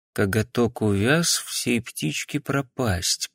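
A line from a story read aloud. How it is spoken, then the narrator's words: Muttered. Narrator (Russian): пробормотал он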